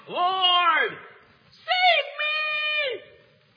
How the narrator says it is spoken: cried with a loud voice

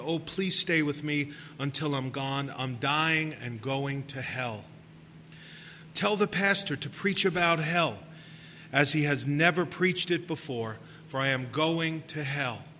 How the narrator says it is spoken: she exclaimed

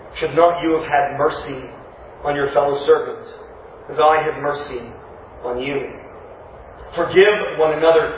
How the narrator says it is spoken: Paul says

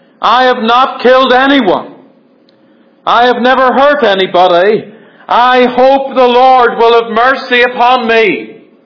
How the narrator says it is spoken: one of them cried out

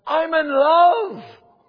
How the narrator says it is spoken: he shouted back

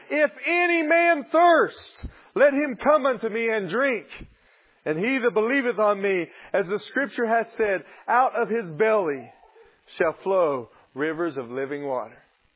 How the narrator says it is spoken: Jesus stood and he cried

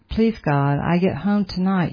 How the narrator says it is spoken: said

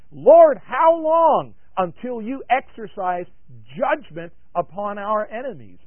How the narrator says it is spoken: Habakkuk cried out and said

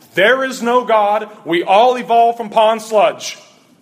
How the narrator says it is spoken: people saying very loudly

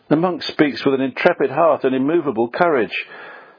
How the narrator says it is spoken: The emperor, changing his first impression, exclaimed

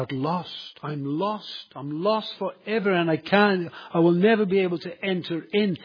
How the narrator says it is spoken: I cried out

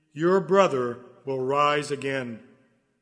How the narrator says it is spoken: He only calmly says to her

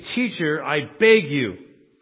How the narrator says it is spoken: cried out, he shouted, saying

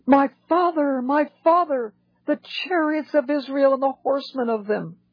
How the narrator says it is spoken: And Elisha cried out

